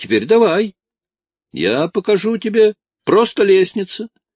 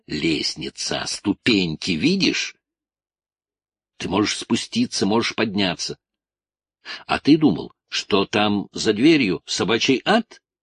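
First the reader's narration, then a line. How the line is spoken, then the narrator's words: Whispering. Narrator (Russian): Тоби прошептал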